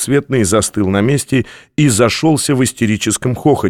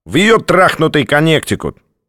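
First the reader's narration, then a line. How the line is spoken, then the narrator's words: Snorting. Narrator (Russian): Двухцветный снова хмыкнул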